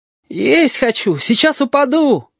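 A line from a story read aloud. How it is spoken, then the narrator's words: Sudden shout. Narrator (Russian): один гусь вдруг закричал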